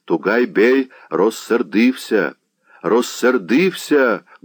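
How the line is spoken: Crowds crying mournfully. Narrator (Russian): горестно кричали толпы

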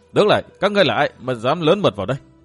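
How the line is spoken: Clear sweet voice shouting. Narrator (Vietnamese): một giọng nói trong êm quát lớn

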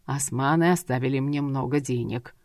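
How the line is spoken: Father grumbling. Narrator (Russian): пробурчал отец

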